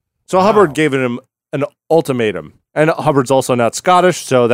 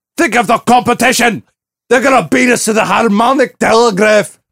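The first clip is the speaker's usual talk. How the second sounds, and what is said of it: Put-on Scottish accent. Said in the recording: “that was an inappropriate Scottish accent”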